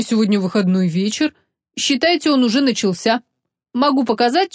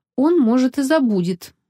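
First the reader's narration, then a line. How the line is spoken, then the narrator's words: Gloomy young woman. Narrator (Russian): мрачно ответила девушка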